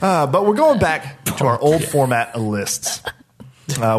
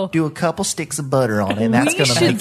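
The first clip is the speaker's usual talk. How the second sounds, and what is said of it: Paula Deen impression, Southern drawl. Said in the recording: “That's a pretty good Paula Deed impression.”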